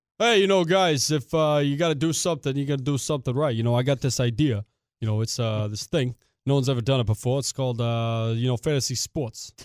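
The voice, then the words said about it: Mike Francesa impression, New York accent. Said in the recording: “the Francesa impression ... just does a New York accent ... Do the same accent you did, but try to have a fat tongue in your mouth ... typical New Yorker.”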